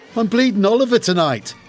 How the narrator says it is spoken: So I shouted down the phone

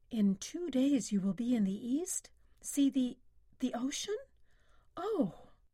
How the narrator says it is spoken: In her voice was wistfulness

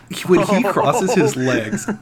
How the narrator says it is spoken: I laughed

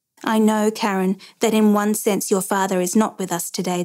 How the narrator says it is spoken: the president said

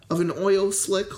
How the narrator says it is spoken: Laverne asked incredulously, and then laughed

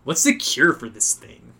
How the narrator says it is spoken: Spidey chuckles

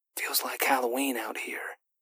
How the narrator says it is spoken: Griff whispered

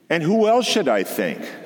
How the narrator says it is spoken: said Mrs

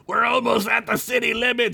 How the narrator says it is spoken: Skunk shouted

